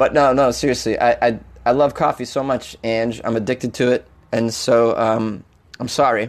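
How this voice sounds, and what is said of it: Usual voice. Nothing is said of it.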